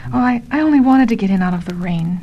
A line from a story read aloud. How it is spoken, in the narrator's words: she faltered